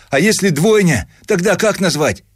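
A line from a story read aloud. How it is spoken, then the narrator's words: Shout across the office. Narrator (Russian): крикнул он на весь отдел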